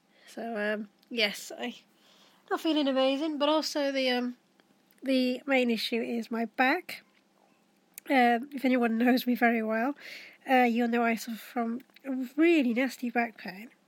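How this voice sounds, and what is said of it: Congested, stuffy-nosed voice. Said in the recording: “I've just started getting a cold ... I don't know if you can hear from my voice that I sound a bit kind of bunged up”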